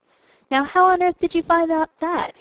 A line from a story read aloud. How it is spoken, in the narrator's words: He cried